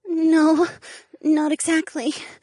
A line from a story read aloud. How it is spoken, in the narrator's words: she replied in a trembling voice